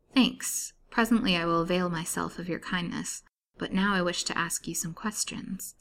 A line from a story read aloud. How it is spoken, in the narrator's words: said Lily quietly